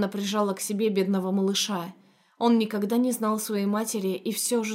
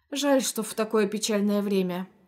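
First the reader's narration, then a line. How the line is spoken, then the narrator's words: Cook sighing. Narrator (Russian): вздохнула кухарка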